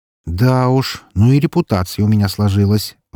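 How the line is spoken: Sigh. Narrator (Russian): вздохнул я

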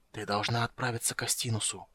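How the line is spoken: Whisper. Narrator (Russian): прошептал он

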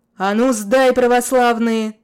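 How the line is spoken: Booming shout. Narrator (Russian): зычно закричал кто-то

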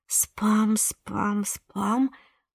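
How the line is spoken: Muttering. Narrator (Russian): бормотала Милена

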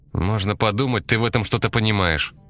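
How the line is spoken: Quiet angry grumble. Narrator (Russian): сердито пробурчал Димка, надеясь, что бабушка этого комментария не услышит

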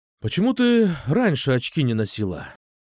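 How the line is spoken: Sighing. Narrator (Russian): Вздохнул я

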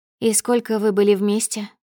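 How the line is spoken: Soft question. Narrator (Russian): мягко спрашиваю

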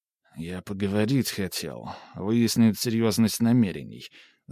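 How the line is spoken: Mumbling, sternness fading. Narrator (Russian): забормотал Лев Васильевич, позорно теряя остатки грозности

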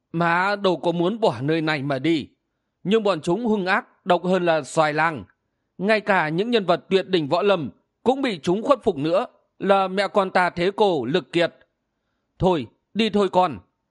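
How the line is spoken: Woman sighing. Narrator (Vietnamese): Người đàn bà thở dài nói

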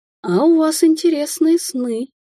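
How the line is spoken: Languid husky voice. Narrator (Russian): проговорил дух, в голосе которого появилась томная хрипотца

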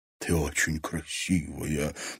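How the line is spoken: Whispered. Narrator (Russian): прошептал Олег

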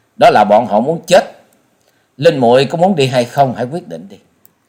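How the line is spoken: Laughing loudly. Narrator (Vietnamese): Trần Lâm cười to nói

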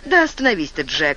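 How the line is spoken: Laughing. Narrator (Russian): засмеялась Марта

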